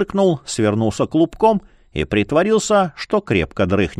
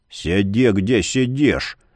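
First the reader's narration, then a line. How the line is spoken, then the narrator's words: Low muffled rumble. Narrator (Russian): Глухо пророкотал он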